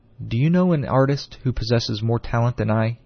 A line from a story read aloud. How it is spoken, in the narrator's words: he asked presently